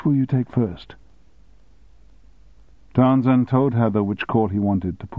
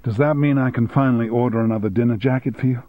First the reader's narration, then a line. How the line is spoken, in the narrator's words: asked Heather